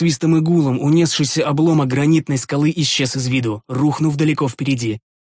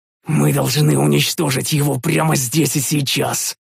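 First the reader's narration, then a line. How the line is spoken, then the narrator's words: Hoarse rasp. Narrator (Russian): прохрипел я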